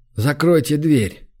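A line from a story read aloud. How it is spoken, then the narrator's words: Weary sigh. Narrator (Russian): Трерк устало вздохнул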